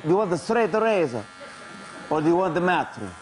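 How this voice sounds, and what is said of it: Imitated Italian accent. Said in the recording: “It was a great Italian accent.”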